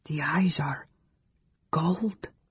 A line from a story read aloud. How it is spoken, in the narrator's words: Carol whispered